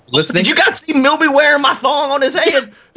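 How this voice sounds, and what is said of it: Southern US accent. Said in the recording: “dude, you sounded so southern there”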